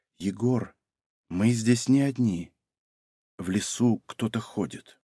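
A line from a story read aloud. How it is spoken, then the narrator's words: Whisper. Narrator (Russian): почти бесшумно подбежала к нему, прошептала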